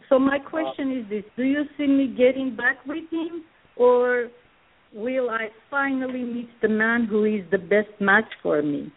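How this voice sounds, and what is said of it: Armenian accent, Russian-sounding. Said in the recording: “are you from Russia? Is that a Russian accent? ... From Armenia. I'm from Armenia.”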